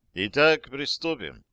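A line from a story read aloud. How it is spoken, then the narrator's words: Calm. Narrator (Russian): спокойно сказал он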